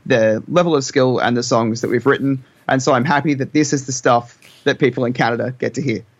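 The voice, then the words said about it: Australian accent. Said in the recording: “when you have an Australian accent, it's like Bryce.”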